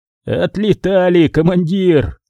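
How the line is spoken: Coughing hoarse rasp, sergeant. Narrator (Russian): Кашляя и сплевывая под ноги кровавую слюну, прохрипел сержант Калюжный

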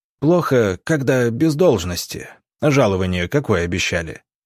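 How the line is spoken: Snort. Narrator (Russian): Иван Палыч хмыкнул

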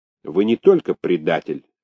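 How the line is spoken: Sharp announcement. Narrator (Russian): резко объявил он

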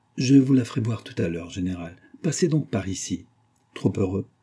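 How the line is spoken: Suave voice. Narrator (French): dit le général d'une voix suave

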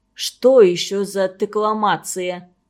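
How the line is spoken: Puzzled grumbling grandmother. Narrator (Russian): в недоумении проворчала бабушка

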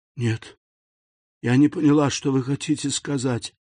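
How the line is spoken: Barely audible, timid babble. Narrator (Russian): еле слышно пролепетала несчастная

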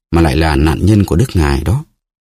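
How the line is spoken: Sighing. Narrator (Vietnamese): Melody thở dài nói

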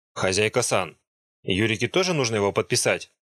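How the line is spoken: Plain question. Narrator (Russian): спросил Катара

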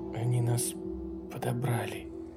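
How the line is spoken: Barely audible whisper. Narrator (Russian): прошептала она еле слышно

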